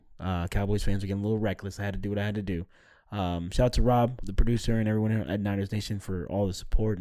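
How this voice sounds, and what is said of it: Hoarse, strained voice. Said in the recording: “I do apologize for my voice, but I was yelling my ass off at AT&T Stadium.”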